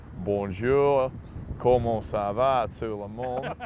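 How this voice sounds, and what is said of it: French spoken with Australian accent. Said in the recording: “French with an Aussie accent is not an attractive language”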